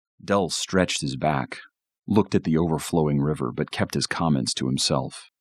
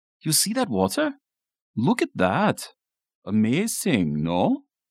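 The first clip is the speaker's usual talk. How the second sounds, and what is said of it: Heavy Swiss accent. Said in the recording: “with his heavy Swiss accent.”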